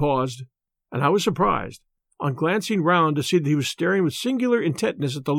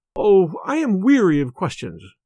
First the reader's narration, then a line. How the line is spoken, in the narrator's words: cried Miss Cushing impatiently